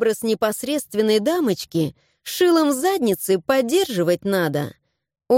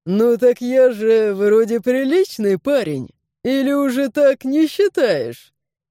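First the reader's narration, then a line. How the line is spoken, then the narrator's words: Chuckling. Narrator (Russian): хохотнул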